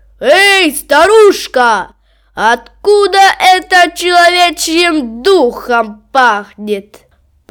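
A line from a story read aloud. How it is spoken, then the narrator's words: Shout. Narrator (Russian): Крикнет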